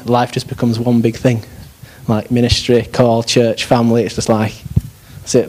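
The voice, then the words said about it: Yorkshire English accent. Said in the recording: “even with a Yorkshire accent”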